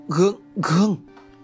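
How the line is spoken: Stammering. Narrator (Vietnamese): Thầy liền lắp bắp

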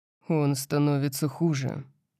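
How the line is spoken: Muttering. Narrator (Russian): пробормотал я

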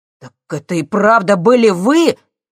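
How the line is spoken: Shouted. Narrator (Russian): крикнул он

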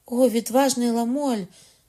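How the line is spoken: Surprised cry. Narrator (Ukrainian): скрикнула Маргарита, не маючи сили довше стримувати здивування

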